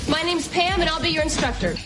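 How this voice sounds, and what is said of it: Yelling, projecting loudly. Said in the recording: “you can see in the clip that I'm yelling, ... you're trained to project to the back row of the theater.”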